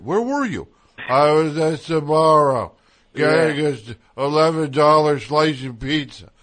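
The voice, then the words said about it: Imitates another person's voice. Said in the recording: “That's my impression of you, by the way.”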